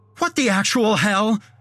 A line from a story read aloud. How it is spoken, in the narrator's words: He yelled